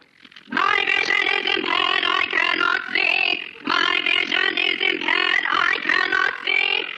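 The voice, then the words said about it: Dalek voice impression. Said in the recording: “an impression. ... You will wait while I assume character. ... That was Imperial Dalek Drone”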